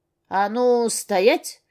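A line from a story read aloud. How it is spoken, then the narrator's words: Furious full-force bark. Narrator (Russian): рявкнула со всей дури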